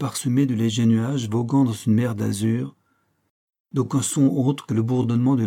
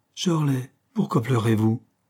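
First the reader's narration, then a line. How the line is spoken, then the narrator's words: Crying out. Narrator (French): s'écria Caroline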